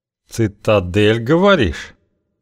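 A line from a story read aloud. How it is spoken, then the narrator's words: Through gritted teeth. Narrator (Russian): процедил сквозь зубы Окш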